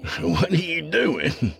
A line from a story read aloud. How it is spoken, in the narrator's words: Colt laughed